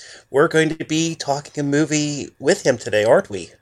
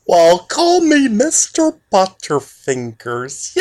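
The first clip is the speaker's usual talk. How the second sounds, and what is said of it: Emo Phillips impression. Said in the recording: “I love doing the Emo Phillips impersonation”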